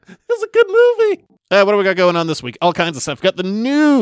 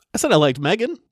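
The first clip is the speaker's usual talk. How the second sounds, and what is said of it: Voice cracks. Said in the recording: “my voice cracked”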